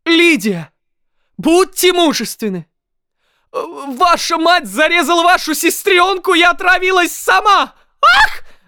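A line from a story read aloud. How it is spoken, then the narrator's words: Exclaimed. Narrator (Russian): воскликнула Лидия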